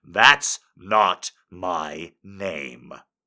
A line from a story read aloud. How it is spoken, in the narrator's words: I growled